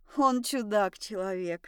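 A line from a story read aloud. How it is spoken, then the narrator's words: Sighing. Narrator (Russian): вздохнула мать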